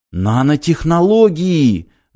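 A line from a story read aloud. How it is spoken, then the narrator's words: Yelling alien. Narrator (Russian): завопил пришелец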